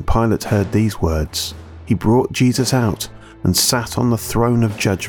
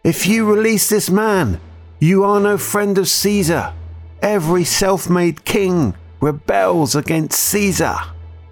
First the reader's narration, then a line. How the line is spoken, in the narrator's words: the Jews cried out